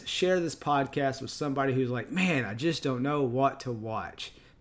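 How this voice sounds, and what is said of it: Texan accent. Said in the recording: “I am from Texas, and this is my accent.”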